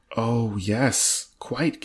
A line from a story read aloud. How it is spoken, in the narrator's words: gasped Mr